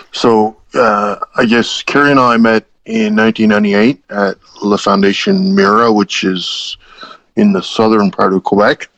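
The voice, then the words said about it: East Coast Canadian accent. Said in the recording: “my East Coast accent”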